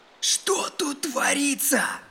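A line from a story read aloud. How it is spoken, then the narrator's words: Hoarse nervous voice. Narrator (Russian): спросил кто-то осипшим нервным голосом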